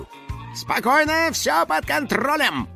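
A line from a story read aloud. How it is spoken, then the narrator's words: Confident shout. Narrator (Russian): уверенно крикнул Финик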